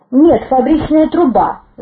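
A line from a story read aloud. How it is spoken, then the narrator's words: Angry bark. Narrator (Russian): зло рявкнул тот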